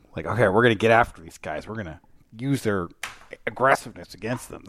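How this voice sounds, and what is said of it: Impression of Mike DeBoer. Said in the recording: “That's my Mike DeBoer impression.”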